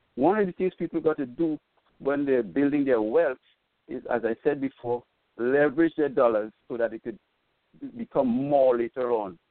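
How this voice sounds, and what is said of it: Foreign accent. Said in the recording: “I'm from another country, as you probably hear from my accent”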